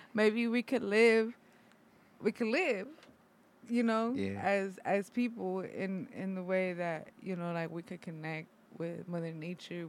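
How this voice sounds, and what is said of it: Mexican accent. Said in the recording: “it's my Mexican ass accent”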